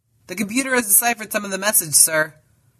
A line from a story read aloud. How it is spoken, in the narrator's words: called out the communications officer